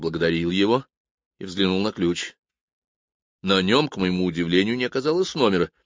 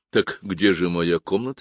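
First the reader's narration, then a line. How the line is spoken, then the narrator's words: Plain. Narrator (Russian): спросил я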